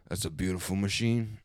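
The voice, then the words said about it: Imitates a movie character's voice. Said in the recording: “this is my best Johnny Tran ... He's got the most basic voice”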